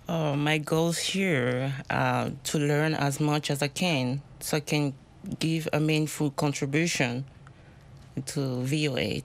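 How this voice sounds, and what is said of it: Noticeable accent in English. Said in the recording (French): “My accent. ... we love accents. We all have accents.”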